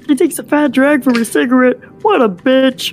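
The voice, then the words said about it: Kermit the Frog cartoon voice. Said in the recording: “This is Kermit saying that. It's a mix of Kermit and Marvin the Martian, which I can't do. ... That's my impression. ... I won't do the Kermit voice”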